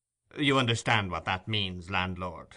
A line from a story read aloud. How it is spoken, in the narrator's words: said the stranger dryly